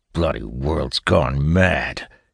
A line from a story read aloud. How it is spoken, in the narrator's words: he mutters